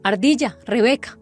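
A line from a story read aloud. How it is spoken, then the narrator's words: Shouting. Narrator (Spanish): gritó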